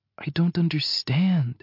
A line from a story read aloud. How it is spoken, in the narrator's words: she whispers